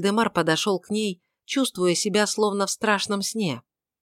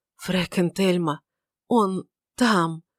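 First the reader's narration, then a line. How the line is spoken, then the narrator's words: Stifled wheeze. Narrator (Russian): придушенно прохрипел Вальдемар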